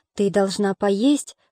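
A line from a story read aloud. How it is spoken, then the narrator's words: Soft gentle. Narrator (Russian): сказал он мягко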